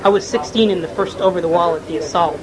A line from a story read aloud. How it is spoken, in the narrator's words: said Yusuf